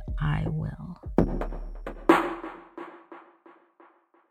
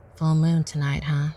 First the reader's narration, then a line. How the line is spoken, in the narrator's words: said